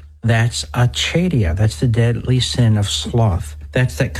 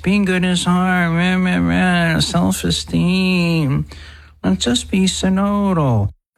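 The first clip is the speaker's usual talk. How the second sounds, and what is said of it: Mocking whiny voice. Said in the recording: “whiny voice ... That whiny voice”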